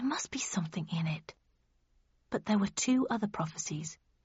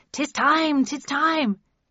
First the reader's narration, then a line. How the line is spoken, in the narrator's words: Passerby from Shadow the Sheepdog had cried